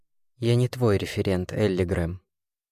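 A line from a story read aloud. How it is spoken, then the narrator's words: Hoarse. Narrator (Russian): хрипло сказал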